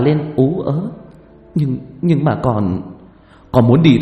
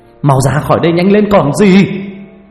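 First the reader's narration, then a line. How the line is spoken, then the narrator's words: Shouting. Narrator (Vietnamese): Ông Ninh quay lại gào lên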